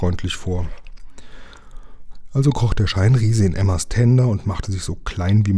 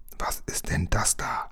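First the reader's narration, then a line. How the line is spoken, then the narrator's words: Whisper. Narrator (German): wisperte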